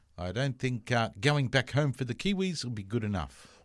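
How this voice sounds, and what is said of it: Poor put-on New Zealand accent. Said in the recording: “a terrible Kiwi accent”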